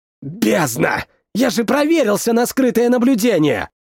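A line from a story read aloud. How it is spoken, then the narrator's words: Hissed. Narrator (Russian): Прошипел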